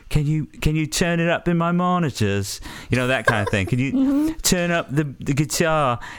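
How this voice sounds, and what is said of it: Bad put-on British accent. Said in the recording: “you immediately go to this Brit... We're all bad at it. Like, that's not a good accent. That's just like sort of a, you know, I'm doing a British accent.”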